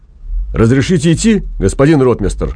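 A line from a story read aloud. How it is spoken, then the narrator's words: Barking loudly. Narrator (Russian): гаркнул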